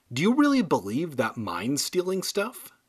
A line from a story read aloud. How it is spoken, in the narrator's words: she asked